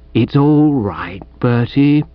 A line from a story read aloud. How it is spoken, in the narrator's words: said Chuffy soothingly